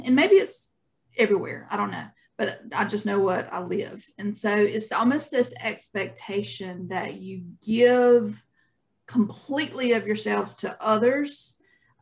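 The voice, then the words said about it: Southern US accent. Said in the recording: “y'all can tell by our accents, ... and I are from the South.”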